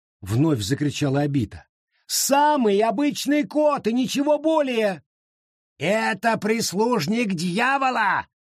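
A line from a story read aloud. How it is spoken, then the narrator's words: Yelling. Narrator (Russian): заорал Ансель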